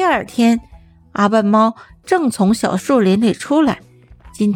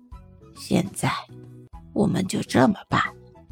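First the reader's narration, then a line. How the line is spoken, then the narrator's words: Whispering. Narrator (Chinese): 老板附在小王耳边轻声说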